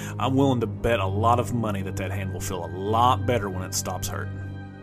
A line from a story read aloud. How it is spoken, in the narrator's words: The old man chuckled, saying